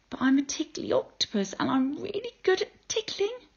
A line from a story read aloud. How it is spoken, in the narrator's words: said Octopus sadly